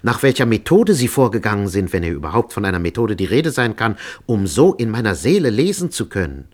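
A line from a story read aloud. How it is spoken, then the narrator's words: Exclaiming. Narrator (German): rief ich aus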